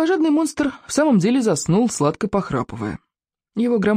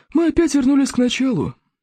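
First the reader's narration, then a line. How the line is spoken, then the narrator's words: Sighing. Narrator (Russian): вздохнул Зеленый Смерч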